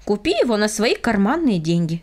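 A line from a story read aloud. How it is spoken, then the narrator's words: Plain. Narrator (Russian): сказал папа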